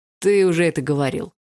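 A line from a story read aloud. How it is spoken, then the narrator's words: Snorted. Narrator (Russian): хмыкнул Барс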